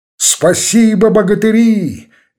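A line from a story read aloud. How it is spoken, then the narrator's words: Energetic shout. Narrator (Russian): энергично крикнул он роте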